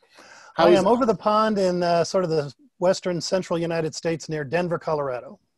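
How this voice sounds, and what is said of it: Foreign accent. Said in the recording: “from that accent, I'm guessing you're not around the corner. You're over the pond.”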